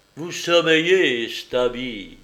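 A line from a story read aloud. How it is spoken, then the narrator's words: Exclaiming. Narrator (French): s'écria l'Égyptien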